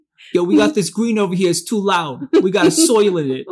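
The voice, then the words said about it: Put-on New Jersey accent. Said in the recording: “I also use the Jersey accent.”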